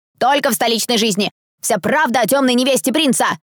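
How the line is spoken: Shouted. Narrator (Russian): прокричал второй

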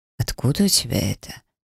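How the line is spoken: Hoarse question. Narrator (Russian): сипло спросил Ирбис

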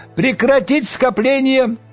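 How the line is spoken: High piercing shout. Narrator (Russian): высокий пронзительный голос прокричал

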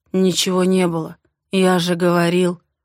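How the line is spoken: Muffled, dull. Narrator (Russian): проговаривает глухо

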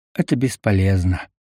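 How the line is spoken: Sighing. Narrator (Russian): вздохнул он

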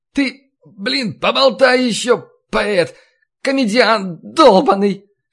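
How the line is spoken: Shout breaking into hoarse falsetto. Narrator (Russian): Срываясь на сиплый фальцет, закричал Василий

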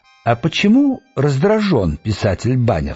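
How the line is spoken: Calm golem. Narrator (Russian): спокойно спросил голем

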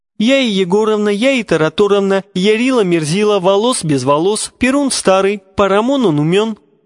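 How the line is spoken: Shrieking holy fool. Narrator (Russian): провизжала блаженная

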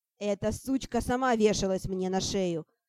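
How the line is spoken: Snapping back. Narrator (Russian): Огрызнулся Бриак

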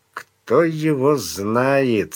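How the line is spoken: Through teeth, foreboding. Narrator (Russian): сквозь зубы ответил Сварог, охваченный нехорошими предчувствиями

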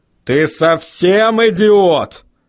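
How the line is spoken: Growl. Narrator (Russian): прорычал Ваймс

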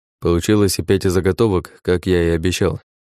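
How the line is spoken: Uncertain reply. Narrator (Russian): как-то неуверенно ответил кузнец

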